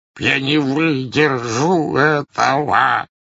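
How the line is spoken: Moaning. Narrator (Russian): стонал он

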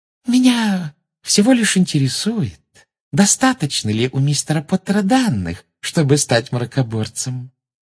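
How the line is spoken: Sugary sing-song voice. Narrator (Russian): сладким голоском пропела Амбридж

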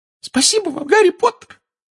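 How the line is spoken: Squeaky voice. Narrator (Russian): пропищал Добби

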